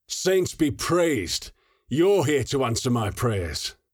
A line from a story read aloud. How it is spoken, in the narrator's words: He shouted the last sentence unnervingly